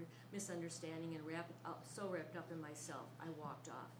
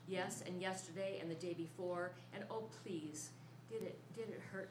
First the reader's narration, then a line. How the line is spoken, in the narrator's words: she said